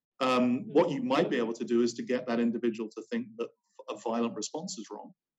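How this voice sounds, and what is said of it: British-sounding accent. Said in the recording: “despite my accent, and I've used we a lot when talking about the UK, I'm actually an American citizen”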